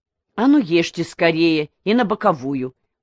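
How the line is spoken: Sharp shout. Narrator (Russian): прикрикнул Донда

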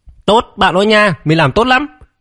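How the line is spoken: Loud triumphant shout. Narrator (Vietnamese): Lôi Vân Phòng hét lớn một tiếng

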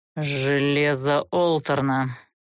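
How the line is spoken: Grim, through teeth. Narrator (Russian): мрачно процедил змей

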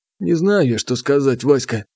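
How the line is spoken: Sighing. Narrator (Russian): вздохнул Потапыч

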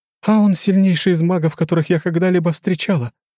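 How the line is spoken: Blurted defensively. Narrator (Russian): выпалила она, защищая суженого

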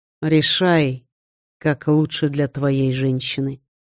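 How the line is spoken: Calm, unpressured. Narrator (Russian): сказал он спокойно, без нажима

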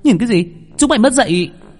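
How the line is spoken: Angry shout. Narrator (Vietnamese): Cô gái la lên

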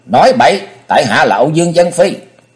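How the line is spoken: Loud shout. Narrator (Vietnamese): Công Tôn Ngọc đã quát lớn

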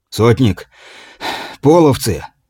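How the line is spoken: Breathless. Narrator (Russian): выдохнул прибежавший наблюдатель

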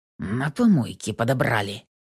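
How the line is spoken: Through gritted teeth. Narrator (Russian): процедил Миронов, скрипя зубами

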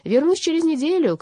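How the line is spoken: Shouted. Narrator (Russian): крикнул он своей жене и Донору

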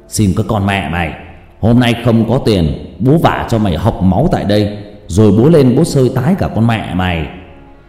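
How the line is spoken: Thuggish shouting. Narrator (Vietnamese): thằng bi phệ lại giở cái giọng giang hồ ra quát tháo

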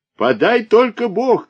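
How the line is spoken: Orator shouting. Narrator (Russian): кричал оратор

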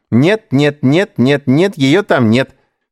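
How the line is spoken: Singsong. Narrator (Russian): нараспев отвечал Эдуард

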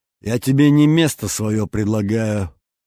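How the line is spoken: Hoarse laugh, coughing. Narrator (Russian): Хрипло рассмеялась княгиня Миронова и закашлялась

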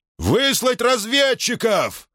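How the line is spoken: Roaring. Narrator (Russian): проревел он

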